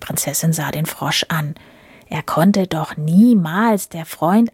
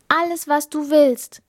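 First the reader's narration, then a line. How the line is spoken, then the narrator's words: Princess calling out. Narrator (German): rief die Prinzessin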